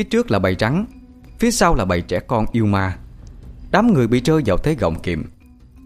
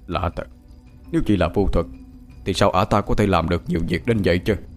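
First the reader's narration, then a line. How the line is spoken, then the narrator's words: Old man muttering. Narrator (Vietnamese): lão ăn mày què lẩm bẩm bên tai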